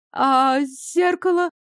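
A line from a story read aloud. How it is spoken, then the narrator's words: Dejected hoarse voice. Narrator (Russian): упавшим голосом просипела королева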